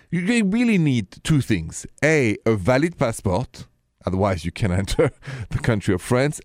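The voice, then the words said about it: French accent. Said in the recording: “this accent is French”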